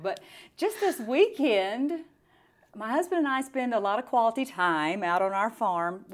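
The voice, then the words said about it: Country accent. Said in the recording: “if the tone of voice didn't tell you, I'm a country girl”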